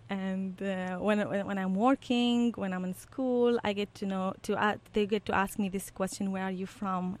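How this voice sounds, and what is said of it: Iraqi-accented English. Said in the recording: “they notice my accent ... You have a very unique accent ... I'm from Iraq”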